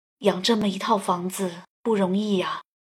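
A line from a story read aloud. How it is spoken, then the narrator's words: Muttering to himself. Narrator (Chinese): 爸爸喃喃自语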